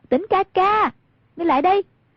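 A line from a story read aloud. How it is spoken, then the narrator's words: Raised-voice call. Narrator (Vietnamese): Hoàng Dung cao giọng gọi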